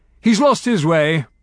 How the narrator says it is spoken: John Ball said angrily

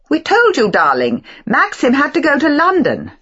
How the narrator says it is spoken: said Beatrice impatiently

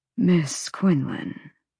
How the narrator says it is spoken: purred

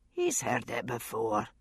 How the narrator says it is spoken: Roger said dryly

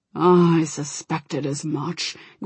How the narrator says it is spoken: growled Bane

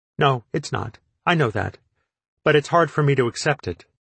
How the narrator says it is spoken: Nervously, she said

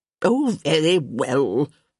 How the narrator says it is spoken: Lady Danbury grumbled

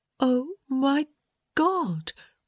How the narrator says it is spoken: she breathed

